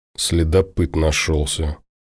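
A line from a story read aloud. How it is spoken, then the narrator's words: Mutter. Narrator (Russian): буркнул Тимур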